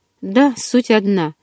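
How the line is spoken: After-laughter statement. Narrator (Russian): вдоль насмеявшись, сообщил

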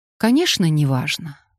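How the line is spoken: Calm speech. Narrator (Russian): спокойно проговорила

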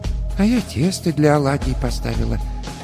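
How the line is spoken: Quiet speech, old woman. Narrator (Russian): тихо сказала баба Маша

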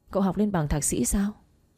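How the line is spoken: Laughing. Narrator (Vietnamese): Tôi bật cười nói

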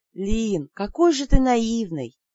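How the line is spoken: Dejected sigh. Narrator (Russian): Удрученно вздохнула

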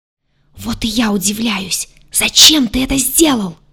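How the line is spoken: Angry whispered yelling. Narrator (Russian): Целитель загадочным образом умудрялся гневно вопить шепотом

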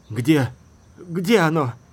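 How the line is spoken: Breathless. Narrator (Russian): выдохнул Фених

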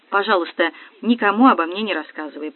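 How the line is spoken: Mumbled. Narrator (Russian): пробормотала я

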